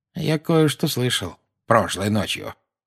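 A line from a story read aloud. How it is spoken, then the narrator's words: Quiet. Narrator (Russian): негромко сказал Дадли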